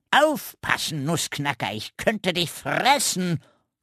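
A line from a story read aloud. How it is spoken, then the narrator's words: Croaking raven voice. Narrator (German): krächzte der Rabe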